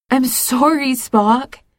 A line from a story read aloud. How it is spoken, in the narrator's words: Cybok cries